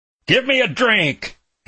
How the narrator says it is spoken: he bellowed

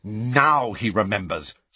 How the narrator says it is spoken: snarled Angelina

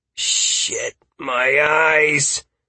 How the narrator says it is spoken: Halcyon muttered, overwhelmed by the magical aura permeating the area

